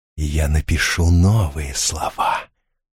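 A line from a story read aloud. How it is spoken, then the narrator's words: Hissed into ear. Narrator (Russian): зашипел он ему в ухо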